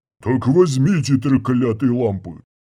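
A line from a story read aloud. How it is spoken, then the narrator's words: Growled. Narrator (Russian): прорычал Панг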